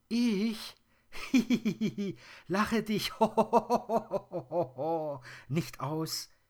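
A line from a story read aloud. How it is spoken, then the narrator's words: Dwarf giggling. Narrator (German): kichert der Zwerg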